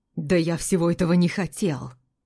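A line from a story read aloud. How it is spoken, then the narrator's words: Furious whisper, almost growling. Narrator (Russian): Стараясь говорить тихо, яростно шептал Измайлов, но получалось так эмоционально, что он почти рычал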